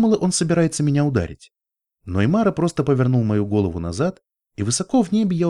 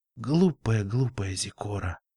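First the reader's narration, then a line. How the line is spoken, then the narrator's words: Whisper. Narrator (Russian): прошептал он через несколько секунд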